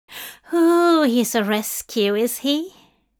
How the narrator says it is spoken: Linda sighed in a tone of utmost understanding

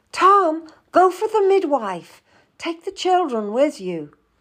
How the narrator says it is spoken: She opened the door and called out

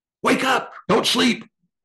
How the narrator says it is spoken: Dava screamed at him

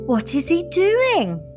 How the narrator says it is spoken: cried Felicity

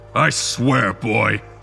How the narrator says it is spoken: the general growled

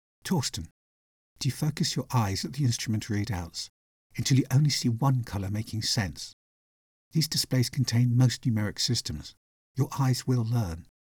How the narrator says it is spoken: Kesh calmly said

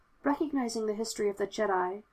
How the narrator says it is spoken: Obi-Wan said, his voice soft

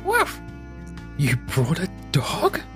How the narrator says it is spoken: Blake hissed

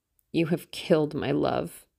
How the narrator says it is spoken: he muttered

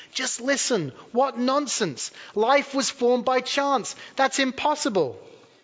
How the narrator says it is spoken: he said excitedly

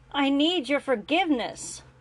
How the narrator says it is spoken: Grant said, his voice raising just a bit

